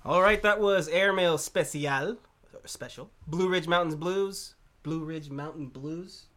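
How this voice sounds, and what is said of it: Put-on rural American accent. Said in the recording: “Can you do it without the accent? ... I wanted him to sound less like he wasn't from Fresno.”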